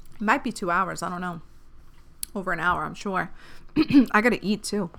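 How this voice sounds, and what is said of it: Hoarse, strained voice. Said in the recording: “I'm fucking losing my voice.”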